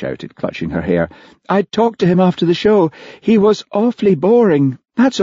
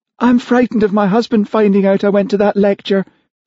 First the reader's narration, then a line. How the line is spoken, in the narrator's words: she sobbed